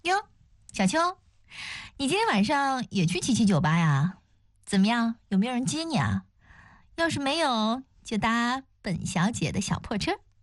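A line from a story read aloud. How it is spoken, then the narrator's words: Teasing laugh. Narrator (Chinese): 邱莹莹 故意笑道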